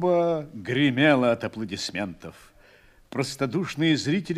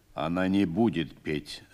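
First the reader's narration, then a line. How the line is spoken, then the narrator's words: Calm. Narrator (Russian): спокойно сказал командир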